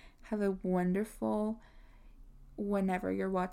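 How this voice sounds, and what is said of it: Usual voice. Nothing is said of it.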